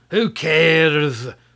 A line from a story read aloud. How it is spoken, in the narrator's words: roared the sorcerer